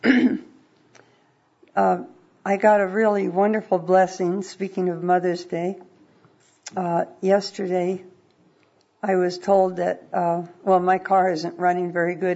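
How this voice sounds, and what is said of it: Weak, fading voice. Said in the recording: “my voice is kind of going away”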